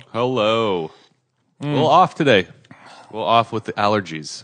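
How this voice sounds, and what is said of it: Deeper, nasal congested voice. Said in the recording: “my voice has got like 10% deeper than usual ... A little nasally.”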